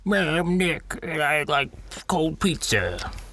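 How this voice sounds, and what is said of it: Croaky, poor imitation of another person's voice. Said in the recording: “This is what Nick sounds like. ... That was like Yoda with bronchitis. ... It was a really bad impression of his impression of me.”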